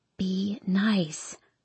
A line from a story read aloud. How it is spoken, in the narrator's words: I whisper to Hardin